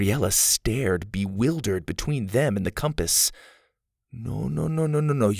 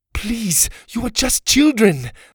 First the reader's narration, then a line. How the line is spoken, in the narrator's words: pleaded